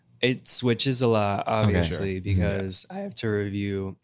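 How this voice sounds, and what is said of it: Voice cracks. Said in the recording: “my voice cracked.”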